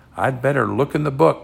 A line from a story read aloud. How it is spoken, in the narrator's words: said Jack